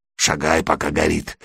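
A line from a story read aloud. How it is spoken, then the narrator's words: Hoarse, vagrant. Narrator (Russian): хрипло сказал бомж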